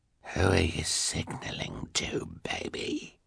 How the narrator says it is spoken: he asked, in his strange hoarse voice

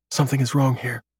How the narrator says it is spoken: whispers to him

